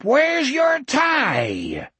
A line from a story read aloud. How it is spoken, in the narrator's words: the Etheridge thing yelled up